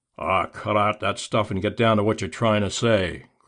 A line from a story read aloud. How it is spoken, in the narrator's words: growled Blackie